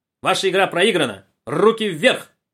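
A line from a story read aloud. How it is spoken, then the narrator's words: Startled boy's shout. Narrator (Russian): Мальчик от неожиданности вздрогнул, закричал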